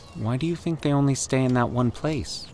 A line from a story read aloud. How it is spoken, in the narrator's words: Danny asked timidly, not wanting to sound ignorant